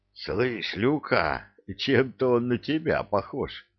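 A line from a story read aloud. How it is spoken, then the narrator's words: Hoarse, spitting sand. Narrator (Russian): просипел Кевин, отплевываясь песком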